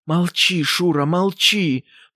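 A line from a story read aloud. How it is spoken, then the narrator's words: Barely-moving-lips whisper. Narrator (Russian): прошептала Ксения Андреевна, и губы ее почти не двигались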